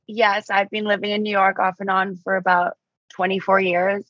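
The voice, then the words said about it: Mixed Australian and New York accent. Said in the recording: “originally from Australia, but you're living now in New York ... my weird accent”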